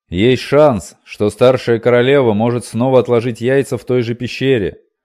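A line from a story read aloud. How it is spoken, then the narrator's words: Shouting over shoulder. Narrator (Russian): крикнул через плечо Дгеллан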